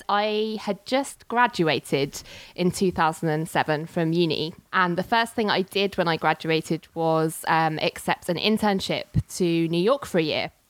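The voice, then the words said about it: British London accent. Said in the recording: “as you can probably tell by my accent, I'm from the UK, London to be precise”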